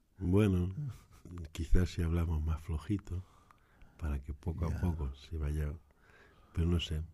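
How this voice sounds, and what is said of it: Deep, just-woken-up morning voice. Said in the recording (Spanish): “la voz de ahora que tengo es más de por la mañana ... me levanté tarde tengo como voz de hombre”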